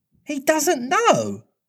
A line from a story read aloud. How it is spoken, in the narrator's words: Wendy was so shocked that she exclaimed